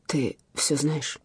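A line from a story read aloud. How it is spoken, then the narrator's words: Quiet. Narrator (Russian): тихо сказал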